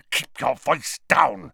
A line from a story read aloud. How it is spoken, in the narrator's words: spat Snape